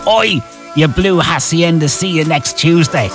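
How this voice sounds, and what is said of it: Put-on Manchester accent. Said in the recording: “My best Manchester accent”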